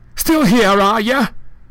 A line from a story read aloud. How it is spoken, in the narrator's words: she barked